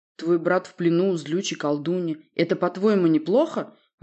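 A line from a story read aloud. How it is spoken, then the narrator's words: Snapping retort. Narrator (Russian): огрызнулся я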